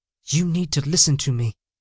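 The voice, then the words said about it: Harsh whisper. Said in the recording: “The woman's whisper was harsh.”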